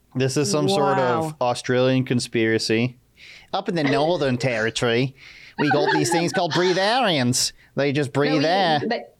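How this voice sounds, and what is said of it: Bad put-on Australian accent. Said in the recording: “how bad that accent was? I think it was worse than the one that I did in the beginning ... that's how they sound”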